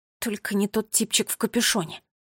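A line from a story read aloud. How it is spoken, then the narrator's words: Mutter. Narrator (Russian): пробормотал Томми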